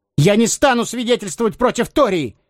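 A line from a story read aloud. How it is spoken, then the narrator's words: Blurted shout. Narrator (Russian): выкрикнул Эггерт раньше, чем страх успел зажать ему рот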